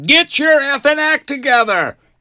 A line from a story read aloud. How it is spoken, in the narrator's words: repeating what yelled at him